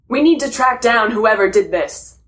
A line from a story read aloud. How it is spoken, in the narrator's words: Superman shouted at Batman